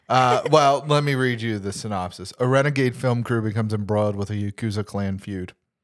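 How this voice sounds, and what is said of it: Flat monotone voice. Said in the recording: “Are you trying purposely to be monotone about it then? ... My voice is being weird. ... It's not, I don't know, going up and down as well.”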